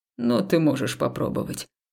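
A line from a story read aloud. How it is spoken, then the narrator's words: Man's smirking snort. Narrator (Russian): хмыкнул мужчина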